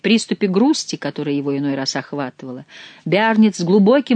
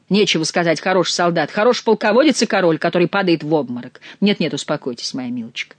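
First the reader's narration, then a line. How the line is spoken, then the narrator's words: Plain. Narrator (Russian): сказал Генрих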